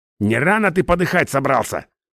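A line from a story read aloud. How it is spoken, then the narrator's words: Angry question. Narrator (Russian): зло спросил я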